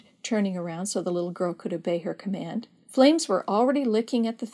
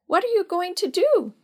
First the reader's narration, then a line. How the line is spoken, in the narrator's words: she asked in a tiny childish voice